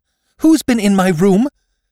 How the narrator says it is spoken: She gasped

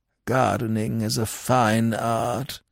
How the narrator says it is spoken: he murmured

